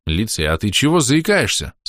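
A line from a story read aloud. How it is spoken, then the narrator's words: Plain. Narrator (Russian): спросил я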